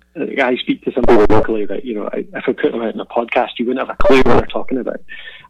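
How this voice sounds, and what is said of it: Mild Scottish accent. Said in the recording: “I've certainly learned to moderate my accent a little bit ... I don't have a strong Scottish accent by any means”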